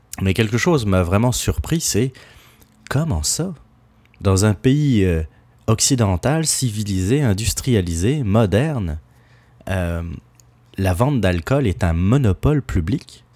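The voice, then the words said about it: Non-Québécois French accent. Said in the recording (French): “juste à écouter mon accent, je ne suis pas euh, un Québécois de souche”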